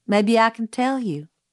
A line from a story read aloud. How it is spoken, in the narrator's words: said Miss Maudie